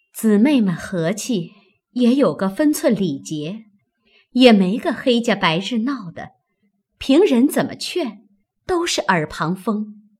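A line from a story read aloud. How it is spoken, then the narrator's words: Sighing. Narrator (Chinese): 袭人叹道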